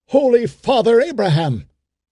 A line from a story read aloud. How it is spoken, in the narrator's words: cried Ben-Hur